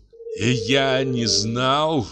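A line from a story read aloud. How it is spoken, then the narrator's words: Groaning. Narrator (Russian): простонал он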